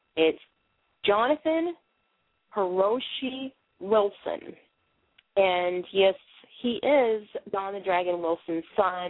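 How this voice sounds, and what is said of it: Boston accent. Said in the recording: “I have a Bostonian accent”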